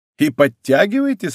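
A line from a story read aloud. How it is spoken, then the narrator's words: Laughing question. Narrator (Russian): спросил, смеясь, Гито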